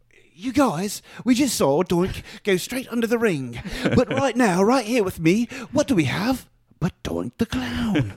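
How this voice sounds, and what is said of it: Bad put-on British accent. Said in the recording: “Don't ever do a British accent. ... It was terrible? ... It was awful. ... I thought I had a decent accent.”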